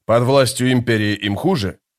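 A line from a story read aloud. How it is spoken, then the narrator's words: Knowing snort. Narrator (Russian): Историк хмыкнул, сообразив, к чему клонит капитан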